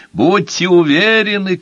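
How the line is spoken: Shouting. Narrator (Russian): кричал Толстяк

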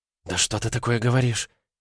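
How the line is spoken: Shocked exhale. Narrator (Russian): Ванда выдохнула и зажала рот рукой

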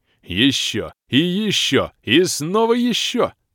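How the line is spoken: Cheerful yelling. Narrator (Russian): весело орал Бом

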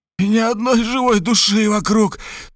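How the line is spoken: Moaning. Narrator (Russian): стонал Хосе

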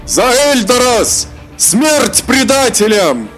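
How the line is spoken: Resolute shout. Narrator (Russian): собрал волю в кулак и прокричал

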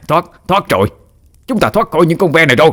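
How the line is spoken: Joyful loud shout. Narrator (Vietnamese): Người đàn ông gầy guộc kia vui mừng gào lớn

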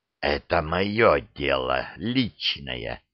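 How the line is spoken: Hissed. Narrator (Russian): прошипел

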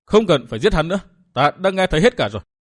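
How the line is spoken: Heavy sigh, cold. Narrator (Vietnamese): Bóng người cất tiếng thở dài não ruột, lạnh lùng nói

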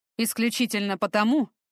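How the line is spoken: Wry snort. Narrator (Russian): Фортом хмыкнул

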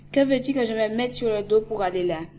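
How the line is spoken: Stammering. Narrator (French): balbutia

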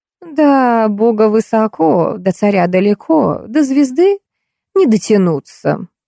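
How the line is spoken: Sarcastic. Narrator (Russian): язвительно сказала Зинаида

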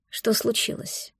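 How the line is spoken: Quiet question. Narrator (Russian): спросил тихо

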